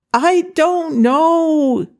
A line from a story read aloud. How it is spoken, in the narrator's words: he shouted back